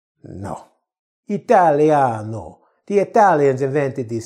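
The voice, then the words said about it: Bad put-on Italian accent. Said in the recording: “Yeah, I know it's a bad Italian accent.”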